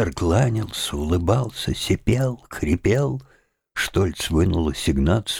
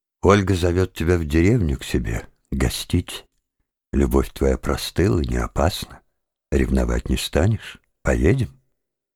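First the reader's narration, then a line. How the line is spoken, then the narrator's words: Sigh. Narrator (Russian): Обломов вздохнул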